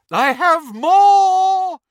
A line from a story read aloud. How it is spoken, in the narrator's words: shrieked Professor Trelawney from over the banisters